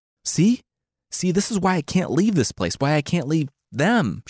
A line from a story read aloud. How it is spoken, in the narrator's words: she screamed